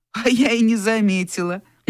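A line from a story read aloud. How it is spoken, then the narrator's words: Mocking. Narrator (Russian): насмешливо сказала Вера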